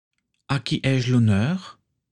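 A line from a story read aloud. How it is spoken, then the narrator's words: Plain. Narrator (French): demanda Tatiana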